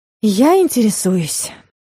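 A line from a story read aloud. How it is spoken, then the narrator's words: Weary sigh. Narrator (Russian): вздохнула Юля, немного устав от дурацкого разговора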